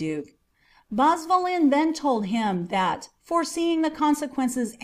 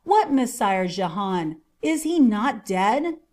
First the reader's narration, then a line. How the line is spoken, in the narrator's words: exclaimed the duke, in an ecstasy of joy